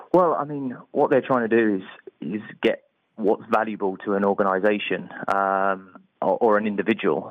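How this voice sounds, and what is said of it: English accent. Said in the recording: “you're the one with the English accent”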